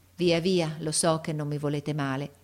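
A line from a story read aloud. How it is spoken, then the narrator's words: Sighing. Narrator (Italian): e mise un sospiro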